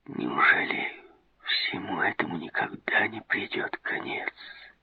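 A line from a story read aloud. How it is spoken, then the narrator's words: Whispered. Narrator (Russian): шепотом проговорил Мираб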